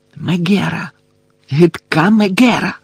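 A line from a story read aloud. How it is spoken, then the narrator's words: Whispered. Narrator (Ukrainian): шепотіла вона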